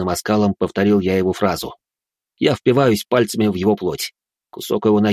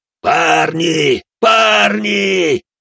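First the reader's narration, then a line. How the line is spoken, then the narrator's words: Tearful shout. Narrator (Russian): кричал со слезами на глазах темный призыватель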